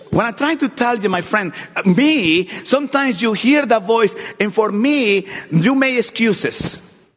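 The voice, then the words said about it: Accented English speech. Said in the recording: “speaking with a funny English accent”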